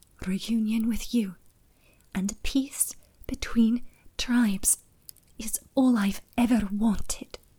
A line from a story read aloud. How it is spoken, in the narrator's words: Sober once again, she whispered